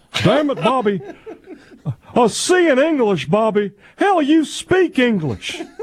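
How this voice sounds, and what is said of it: Hank Hill cartoon character impression. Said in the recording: “my Hank Hill and my Brandon Walker are the same impression ... sounded like Hank from King of the Hill”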